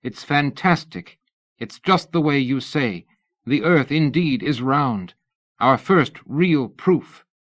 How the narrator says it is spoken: Matsumura exclaimed

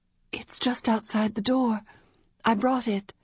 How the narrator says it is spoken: she replied, still whispering

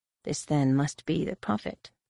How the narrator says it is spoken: murmured

